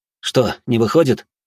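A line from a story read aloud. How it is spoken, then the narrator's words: Irritated exhale. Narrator (Russian): Алрос с раздражением выдохнул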